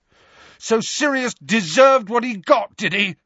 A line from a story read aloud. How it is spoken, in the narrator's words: Harry yelled